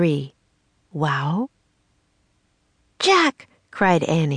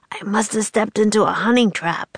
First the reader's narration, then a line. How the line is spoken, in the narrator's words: he said in a strangled voice